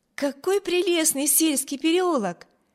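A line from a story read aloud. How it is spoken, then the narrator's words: Exclamation. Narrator (Russian): воскликнула Эми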